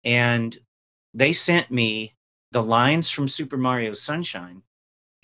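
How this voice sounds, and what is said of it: Usual voice. Nothing is said of it.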